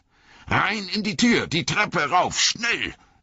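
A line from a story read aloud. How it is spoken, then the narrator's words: Roar. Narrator (German): brüllte Gandalf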